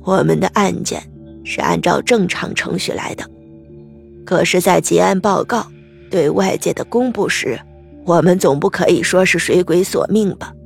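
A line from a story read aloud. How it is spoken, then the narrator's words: Smiling reply. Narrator (Chinese): 老常，笑着，回答道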